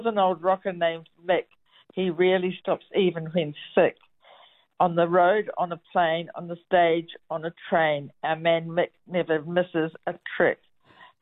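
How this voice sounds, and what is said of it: New Zealand (Kiwi) accent. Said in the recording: “my accent ... your accent, it did rhyme ... it worked with the Kiwi accent”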